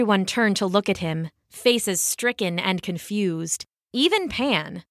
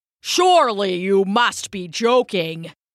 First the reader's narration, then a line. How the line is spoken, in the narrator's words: boomed Tmolus